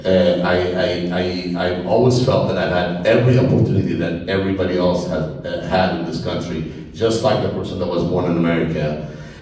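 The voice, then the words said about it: Thick foreign accent. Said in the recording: “I have a thick accent”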